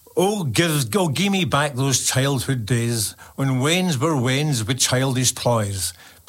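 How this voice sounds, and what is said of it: Glasgow accent, slow delivery. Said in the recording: “This is going to be in my Glasgow accent... I'll try and go a little bit slow”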